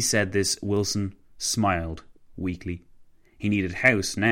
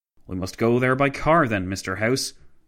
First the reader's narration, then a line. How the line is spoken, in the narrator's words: Wilson exclaimed